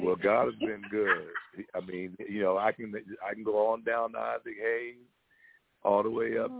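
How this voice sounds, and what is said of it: Deep speaking voice. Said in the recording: “you have this deep voice when you talk”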